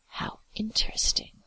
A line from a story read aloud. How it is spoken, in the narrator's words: breathed